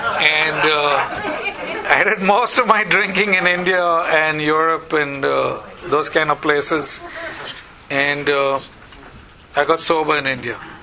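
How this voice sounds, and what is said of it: Indian-accented English. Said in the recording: “the accent is from India”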